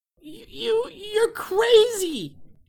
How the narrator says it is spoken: she screamed at him

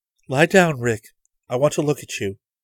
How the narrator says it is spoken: she said calmly

